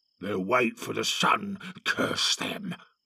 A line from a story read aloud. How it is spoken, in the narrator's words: growled one of the guards